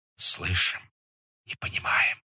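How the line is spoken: Whispered reply. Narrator (Russian): ответили шепотом

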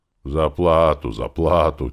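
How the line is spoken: Loud grumbling reply. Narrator (Russian): громко пробурчал в ответ

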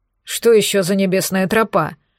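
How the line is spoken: Grumbling mutter. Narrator (Russian): пробурчал Черный

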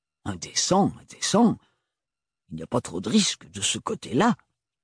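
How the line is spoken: Grumbling. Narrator (French): grommela la tante Roseline

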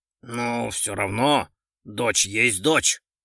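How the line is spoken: Grumbling general. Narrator (Russian): проворчал генерал

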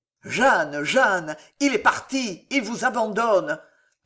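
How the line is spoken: Ardent voice. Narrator (French): d'une voix ardente

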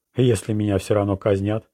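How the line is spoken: Plain. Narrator (Russian): спросил Луиджина

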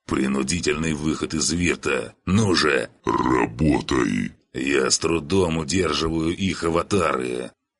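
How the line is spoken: Impatient strained croak. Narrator (Russian): Бог нетерпеливо и натужно прохрипел

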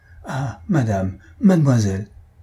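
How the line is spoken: Stammering, choked with emotion. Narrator (French): balbutia-t-il, suffoqué d'émotion

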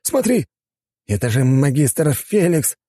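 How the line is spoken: Exclamation. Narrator (Russian): воскликнул Ларис

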